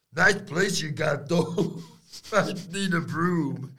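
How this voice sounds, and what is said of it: Poor imitation of another person's voice. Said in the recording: “Terrible Stax impression. ... Rubbish. ... You're bad at that.”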